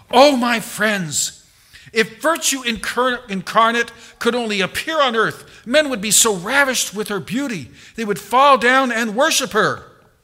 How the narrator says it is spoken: he exclaimed

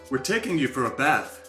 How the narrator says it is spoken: said the guard

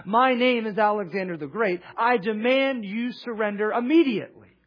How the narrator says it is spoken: Alexander, in his humble spirit, shouted up to this king and said

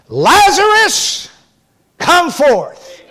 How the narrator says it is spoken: cried with a loud voice

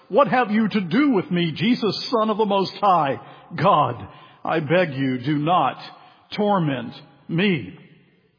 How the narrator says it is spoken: cried out and fell down before him and said with a loud voice

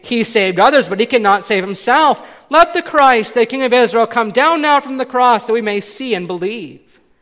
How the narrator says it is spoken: the chief priests with the scribes mocked him to another, saying

